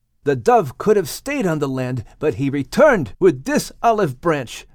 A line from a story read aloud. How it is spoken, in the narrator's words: Noah exclaimed